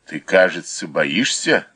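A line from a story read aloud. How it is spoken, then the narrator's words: Mocking question. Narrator (Russian): насмешливо спросил Юлиус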